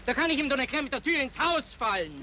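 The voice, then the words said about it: Loud, shouting voice. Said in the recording (German): “schrei nicht so! Du musst ja nicht kilometerweit hören”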